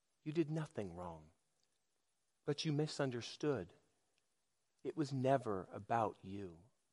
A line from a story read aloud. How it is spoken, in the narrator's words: she whispered in his ear